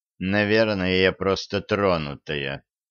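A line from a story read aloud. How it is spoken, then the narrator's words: Grim remark. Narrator (Russian): мрачно заметила Лорелли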